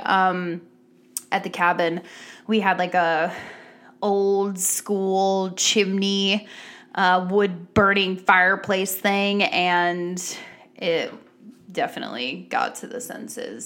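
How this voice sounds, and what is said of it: Raspy, slightly ragged voice. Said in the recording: “My voice is a little raspy. ... I apologize if my voice sounds a little raggedy.”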